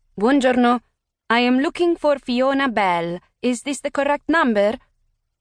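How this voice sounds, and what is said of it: Thick Italian accent. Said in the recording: “A woman with a thick Italian accent”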